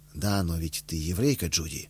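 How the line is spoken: Calm objection. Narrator (Russian): спокойно возразил я ей

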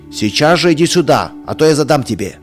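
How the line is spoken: Father's sterner shout. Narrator (Russian): еще суровее закричал отец

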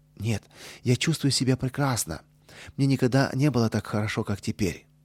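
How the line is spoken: Cheerful reply. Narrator (Russian): весело ответил

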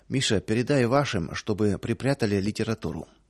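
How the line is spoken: Low voice. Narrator (Russian): хозяин вполголоса сказал

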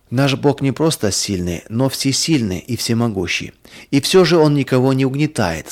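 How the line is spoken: Plain. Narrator (Russian): сказал папа

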